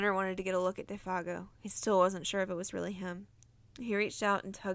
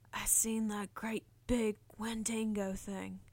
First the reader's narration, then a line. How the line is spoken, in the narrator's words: he whispered